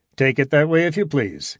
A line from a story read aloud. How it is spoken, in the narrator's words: continued Norden cheerfully